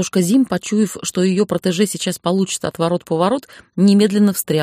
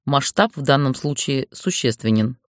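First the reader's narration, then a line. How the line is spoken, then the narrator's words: Dry. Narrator (Russian): сухо сказал он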